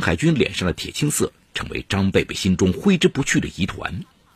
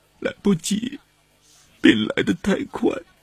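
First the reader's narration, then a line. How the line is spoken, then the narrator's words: Choked with tears. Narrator (Chinese): 刘小慧哽咽着说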